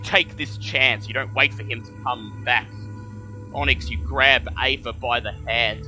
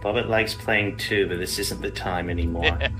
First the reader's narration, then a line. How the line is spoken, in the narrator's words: Bobbitt just mutters to herself